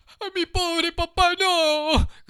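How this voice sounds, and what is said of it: Desperate shouting. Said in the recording (Spanish): “gritó Pinocho con acento desesperado”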